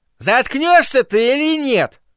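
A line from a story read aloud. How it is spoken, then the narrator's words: Shout. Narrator (Russian): крикнул Норм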